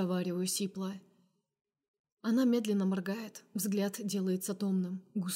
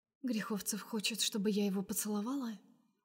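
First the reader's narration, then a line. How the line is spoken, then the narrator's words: Quiet smirking. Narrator (Russian): Усмехается Настя тихо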